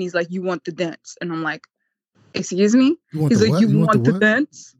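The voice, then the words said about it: Attempted Ukrainian accent. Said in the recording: “that was your Ukrainian accent. I like that... me attempting”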